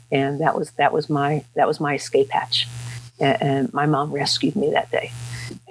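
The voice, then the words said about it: Emotional, shaky voice. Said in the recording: “I'm finding myself a little emotional.”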